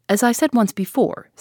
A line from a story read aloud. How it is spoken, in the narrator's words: said Whittington angrily